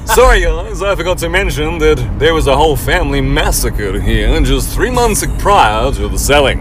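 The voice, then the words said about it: Smooth, silly salesman character voice. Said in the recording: “the smooth ass real estate called Ricky goes ... why do you sound like a fucking idiot, Ricky? ... you didn't sound like that the whole time we were negotiating.”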